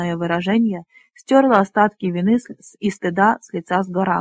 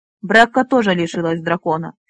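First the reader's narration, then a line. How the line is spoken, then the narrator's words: Angry objection. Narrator (Russian): сердито возразил всадник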